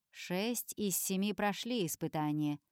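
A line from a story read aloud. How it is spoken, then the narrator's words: Icy tone. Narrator (Russian): сообщает он ледяным тоном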